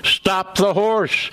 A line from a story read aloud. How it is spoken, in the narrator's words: voices over the traffic shouting